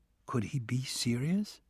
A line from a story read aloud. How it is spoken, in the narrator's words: I asked softly